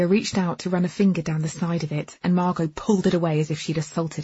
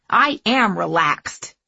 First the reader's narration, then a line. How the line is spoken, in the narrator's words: she snapped